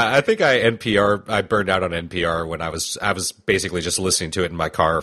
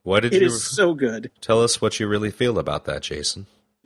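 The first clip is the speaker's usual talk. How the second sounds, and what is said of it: Calm soothing NPR-style voice. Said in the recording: “I'm using my calm NPR voice.”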